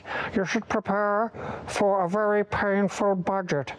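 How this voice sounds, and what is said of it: Imitates another person's voice. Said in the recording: “this is my Keir Starmer impression”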